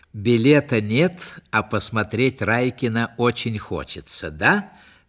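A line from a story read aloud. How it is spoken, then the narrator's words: Plain. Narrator (Russian): спросила Вика Горшенина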